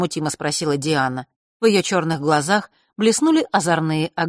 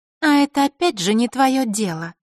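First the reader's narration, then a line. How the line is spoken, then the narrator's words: Calm. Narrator (Russian): спокойно сказала Диана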